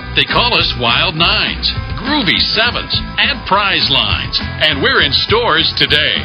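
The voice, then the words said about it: Exaggerated announcer voice. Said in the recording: “in a really announcery voice like this.”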